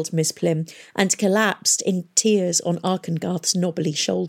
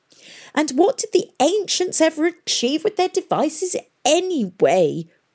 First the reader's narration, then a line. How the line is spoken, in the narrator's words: whined